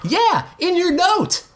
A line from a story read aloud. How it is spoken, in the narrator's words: Gene shouted